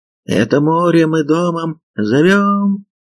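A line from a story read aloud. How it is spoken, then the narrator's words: Child singing, thin voice. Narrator (Russian): пропел мальчик тоненьким голоском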